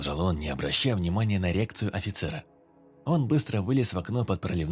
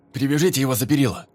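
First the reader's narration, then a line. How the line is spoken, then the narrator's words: Shouting, playing the fool. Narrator (Russian): крикнул охранник, играя роль дурачка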